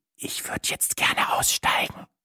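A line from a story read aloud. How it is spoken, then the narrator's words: Whisper. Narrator (German): flüsterte ich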